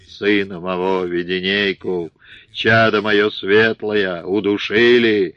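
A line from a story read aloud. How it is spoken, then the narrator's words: Muffled shaking anguished roar. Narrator (Russian): закрыв ладонями лицо, зарычал, сотрясаясь всем своим мощным телом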